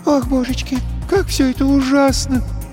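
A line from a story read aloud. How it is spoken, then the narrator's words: Sobbing. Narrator (Russian): всхлипнула Ресси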